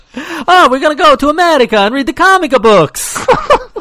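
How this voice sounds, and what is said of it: Bad put-on Italian accent. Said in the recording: “your horrendous Italian accent”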